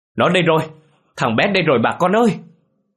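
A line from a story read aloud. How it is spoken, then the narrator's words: Excited shout. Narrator (Vietnamese): ông Lang đã hét lên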